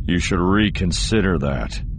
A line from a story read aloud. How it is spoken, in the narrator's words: Solo said, his voice getting rough